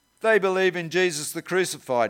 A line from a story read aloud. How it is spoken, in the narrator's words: he said